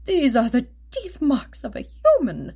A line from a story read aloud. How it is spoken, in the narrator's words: a third croaked in astonishment